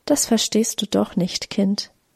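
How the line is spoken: Soft gentle speech. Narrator (German): sagte leise

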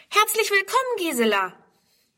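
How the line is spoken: Calling out. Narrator (German): ruft

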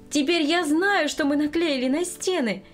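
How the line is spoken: Joyful greeting. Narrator (Russian): радостно встретила она внучку

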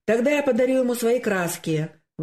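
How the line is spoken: Exclaiming. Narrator (Russian): воскликнул Коля

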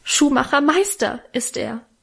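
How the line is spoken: Tearful cry. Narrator (German): rief Minchen mit Tränen in den Augen

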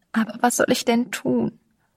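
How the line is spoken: Wailing lament. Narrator (German): jammerte sie

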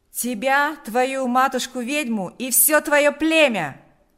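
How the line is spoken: Shouting. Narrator (Russian): закричал Панас

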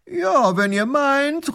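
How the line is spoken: Flattered call back. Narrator (German): ruft der Großherzog geschmeichelt zurück

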